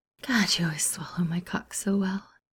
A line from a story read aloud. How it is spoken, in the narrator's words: Steed gasped